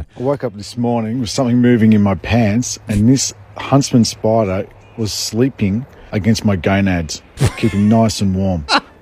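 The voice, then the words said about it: Australian accent. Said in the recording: “he's got an Australian accent, of course”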